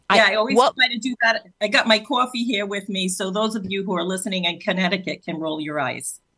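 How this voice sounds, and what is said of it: Rhode Island accent. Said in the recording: “keeping up with your native Rhode Island accent.”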